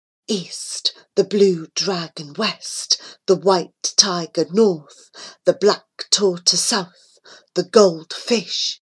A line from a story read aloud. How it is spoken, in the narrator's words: she chanted softly